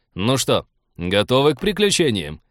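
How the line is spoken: Cheerful question. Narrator (Russian): бодро осведомился Артур

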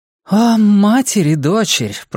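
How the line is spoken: Moaned. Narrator (Russian): простонала Эрин

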